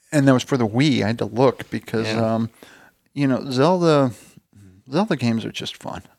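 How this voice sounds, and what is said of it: Usual voice. Nothing is said of it.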